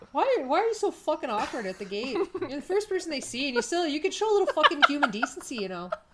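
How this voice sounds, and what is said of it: Put-on Canadian accent. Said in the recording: “The one accent I can do. Canadian.”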